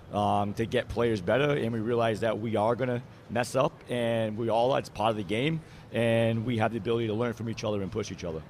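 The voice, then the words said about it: Massachusetts accent. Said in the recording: “with my accent, I'm from Massachusetts, so you know, it definitely comes on a little thicker sometimes”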